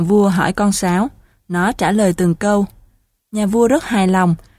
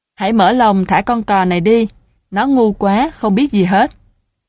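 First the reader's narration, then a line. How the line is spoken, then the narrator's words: Laughing command. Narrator (Vietnamese): Nhà vua bật cười, ra lệnh cho tên nội thị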